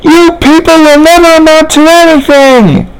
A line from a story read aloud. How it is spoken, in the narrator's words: the nurse screamed